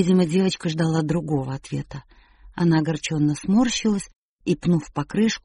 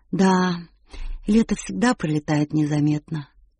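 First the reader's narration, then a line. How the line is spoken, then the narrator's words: Sighing. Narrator (Russian): вздохнула Уилла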